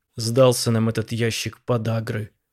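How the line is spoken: Through gritted teeth. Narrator (Russian): процедил Акопов

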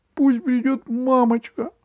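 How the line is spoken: Squeak. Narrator (Russian): Франц пискнул

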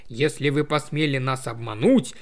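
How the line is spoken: Grumbling male voice. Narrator (Russian): проворчал он, угрожающе глядя на Томми

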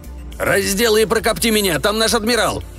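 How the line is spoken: Yelling. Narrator (Russian): заорал капитан Крюк

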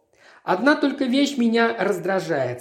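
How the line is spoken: Plain. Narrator (Russian): сказал Смит

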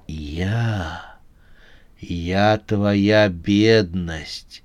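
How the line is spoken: Predatory smiling whisper. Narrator (Russian): прошептала, улыбаясь хищной улыбкой

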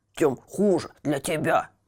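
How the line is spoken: Grumbling cat. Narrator (Russian): проворчал кот

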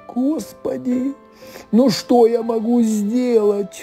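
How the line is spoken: Sobbing cook. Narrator (Russian): рыдал повар

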